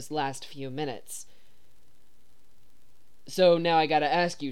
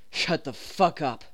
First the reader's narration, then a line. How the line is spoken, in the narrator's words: Dean growls